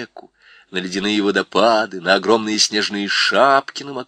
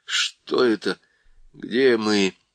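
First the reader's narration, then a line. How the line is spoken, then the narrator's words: Tired, dull voice. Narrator (Russian): спросил Питер усталым, тусклым голосом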